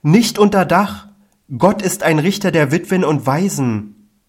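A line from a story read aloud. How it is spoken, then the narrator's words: Sick woman's high-pitched cry. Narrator (German): wie von höherer Stimme, aus dem Munde der Kranken, das rief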